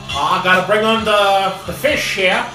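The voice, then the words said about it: Put-on rough fisherman accent. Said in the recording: “I don't know if that's what kind of accent that is.”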